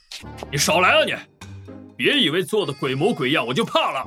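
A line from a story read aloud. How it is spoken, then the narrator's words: Fierce bellowing. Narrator (Chinese): 王丽丽仰头指老白，拿出吼地痞流氓的气势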